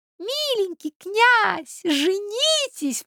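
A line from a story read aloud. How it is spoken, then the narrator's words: Squeaky. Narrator (Russian): пропищала третья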